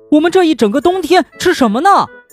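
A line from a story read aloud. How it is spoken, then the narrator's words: Shouting. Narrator (Chinese): 马克大叫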